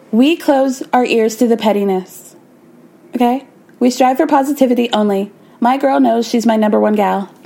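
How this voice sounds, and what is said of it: Imitates another person's voice. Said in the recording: “I am doing the Whitney voice for it”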